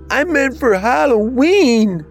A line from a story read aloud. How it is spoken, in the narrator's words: Bobby screamed